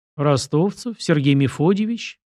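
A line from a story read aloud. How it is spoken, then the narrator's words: Confused. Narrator (Russian): растерянно произнес Сашка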